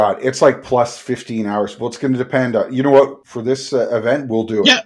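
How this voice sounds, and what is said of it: Usual voice. Nothing is said of it.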